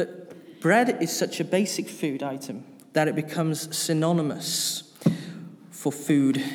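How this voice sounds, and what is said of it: Usual voice. Nothing is said of it.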